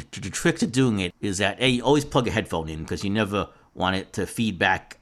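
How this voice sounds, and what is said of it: Bronx accent. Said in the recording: “my Bronx accent”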